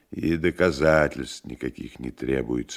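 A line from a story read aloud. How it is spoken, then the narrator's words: Quiet, accent gone. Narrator (Russian): ответил профессор, и заговорил негромко, причем его акцент почему-то пропал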